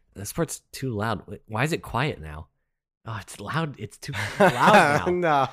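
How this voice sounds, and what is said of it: Imitates a podcast listener. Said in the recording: “Here's my impersonation of a listener.”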